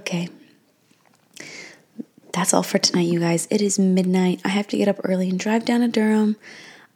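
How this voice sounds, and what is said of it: Tired-sounding voice. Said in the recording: “I'm so tired. You can probably hear it in my voice”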